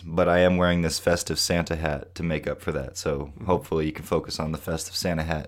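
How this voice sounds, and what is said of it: Sick-sounding voice. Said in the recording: “I'm a little under the weather. You can probably tell in my voice”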